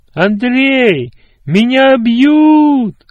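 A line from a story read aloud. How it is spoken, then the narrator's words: Screaming with all strength, struggling. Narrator (Russian): что есть силы, закричал, вырываясь из рук обидчиков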